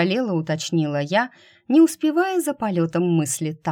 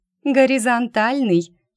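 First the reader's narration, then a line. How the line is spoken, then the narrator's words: Giggling over the phone. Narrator (Russian): хихикнули в трубку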